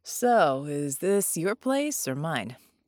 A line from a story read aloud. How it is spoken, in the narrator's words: She chuckled